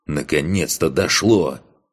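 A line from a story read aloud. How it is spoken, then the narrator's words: Growled. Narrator (Russian): прорычал Корт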